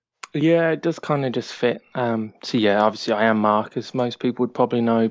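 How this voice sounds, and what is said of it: English accent, TH pronounced differently. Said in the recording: “I can't pronounce TH ... she's a fellow English person ... a slightly strange accent”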